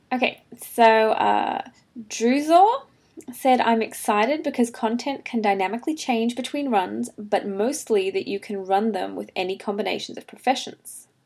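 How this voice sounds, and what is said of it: Speaks with an accent. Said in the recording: “I heard you have an accent... Me? I have an accent? Do I? I do, right?”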